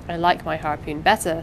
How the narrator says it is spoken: said the Canadian

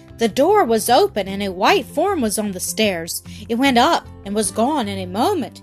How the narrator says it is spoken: gasped John

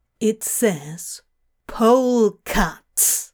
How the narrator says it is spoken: Crowley replied coldly, his voice taking on the quiet menace of a soon-to-be murderer

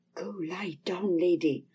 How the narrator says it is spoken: she muttered in Tanner's ear

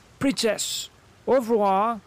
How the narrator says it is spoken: cried he, stumbling with his tongue as well as with his feet

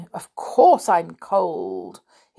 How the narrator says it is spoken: he said in a grumbling sort of voice

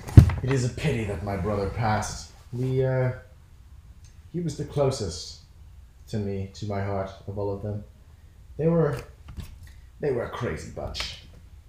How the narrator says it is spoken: he sighs and he says

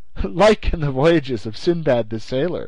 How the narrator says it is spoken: I answered, laughing

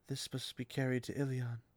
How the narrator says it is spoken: she said softly

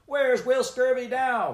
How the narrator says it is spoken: they shouted

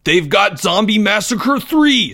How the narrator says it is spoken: screamed Jake

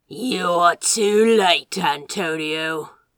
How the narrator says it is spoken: Grogan sneered

